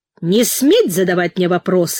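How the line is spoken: Loud bear-like bark. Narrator (Russian): на весь зал по медвежьи рявкнул прокурор

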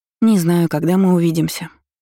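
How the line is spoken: Sighing. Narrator (Russian): вздохнула она

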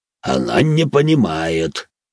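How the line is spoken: Deep bass voice. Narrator (Russian): пробасил со своего места Ханс-младший

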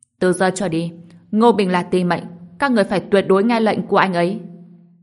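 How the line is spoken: Raised voice. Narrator (Vietnamese): Đường Băng Vân cao giọng nói

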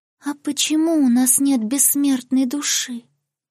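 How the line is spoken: Sad question. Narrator (Russian): грустно спросила русалочка

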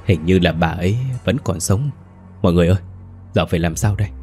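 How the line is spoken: Trembling voice. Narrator (Vietnamese): Có ai đó run rẩy nói

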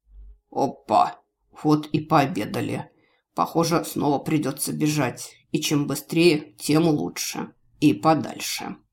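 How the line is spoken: Thoughtful, still hoarse. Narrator (Russian): задумчиво сказал все еще хриплым голосом

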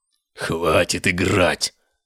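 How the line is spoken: Possessed man's echoing growl. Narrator (Russian): зарычал одержимый, и его голос эхом отразился от стен храма

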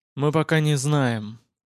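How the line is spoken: Officer's weary admission. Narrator (Russian): устало признал офицер

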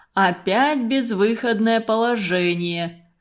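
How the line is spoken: Laughing. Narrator (Russian): засмеялся Константин Семенович

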